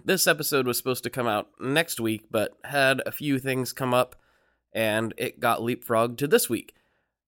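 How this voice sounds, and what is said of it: Congested voice from a cold. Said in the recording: “I might sound a little bit funny right now because I have a cold”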